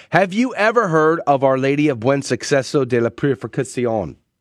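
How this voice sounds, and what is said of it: American accent pronouncing Spanish words. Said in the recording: “I know I didn't say that correctly ... It's that gringo accent that I have.”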